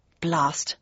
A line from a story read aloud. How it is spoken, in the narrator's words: I mumbled again